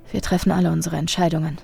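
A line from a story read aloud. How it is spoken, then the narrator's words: Whispered. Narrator (German): flüsterte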